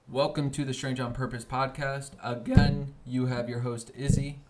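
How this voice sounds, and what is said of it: Voice cracks mid-sentence. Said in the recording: “My voice cracked.”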